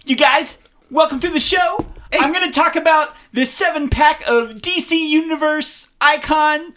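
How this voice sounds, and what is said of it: Over-excited YouTuber voice. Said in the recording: “talk in a really excited voice”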